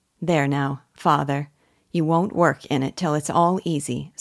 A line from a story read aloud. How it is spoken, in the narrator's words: said Eppie